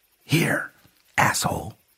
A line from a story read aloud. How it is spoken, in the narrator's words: I whispered